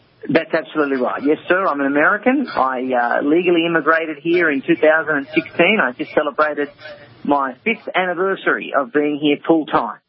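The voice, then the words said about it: Australian accent. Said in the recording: “that Aussie accent”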